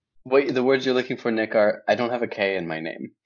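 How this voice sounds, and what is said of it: American accent. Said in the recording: “is the one with the American accent ... is described by all my female friends as the one with the attractive voice.”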